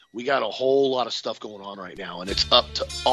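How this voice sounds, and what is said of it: Usual voice. Nothing is said of it.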